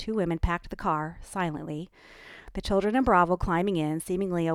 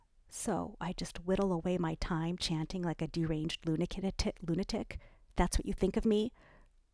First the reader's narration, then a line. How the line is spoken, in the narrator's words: Her voice warbled